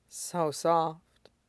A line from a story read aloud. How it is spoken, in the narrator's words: murmured